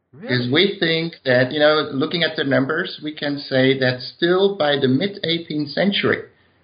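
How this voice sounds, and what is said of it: Dutch accent in English. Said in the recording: “I do have a Dutch accent when I speak English”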